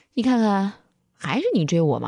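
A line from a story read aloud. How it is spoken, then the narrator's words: Smiling, then cold. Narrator (Chinese): 于乐乐笑眯眯地 然后又冷冷地看着赵楠说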